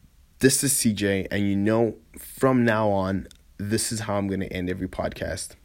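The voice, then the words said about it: Tired, rough-sounding voice. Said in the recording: “I'm sorry if my voice is terrible. I know I'm super tired.”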